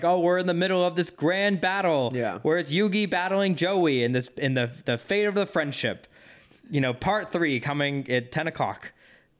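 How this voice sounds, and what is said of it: Poor mid-Atlantic announcer voice. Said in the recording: “bad Walter Cronkite impersonation? ... that did not sound like what those cartoons sounded like ... my worst attempt at a mid-Atlantic voice. Transatlantic.”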